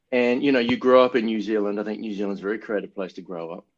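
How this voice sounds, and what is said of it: Flat, thick New Zealand accent. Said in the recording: “my accent is pretty flat, you know, and thick. And so I'm very Kiwi in that way.”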